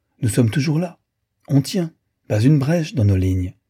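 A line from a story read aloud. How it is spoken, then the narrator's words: Cheerful. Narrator (French): lui dit-il gaiement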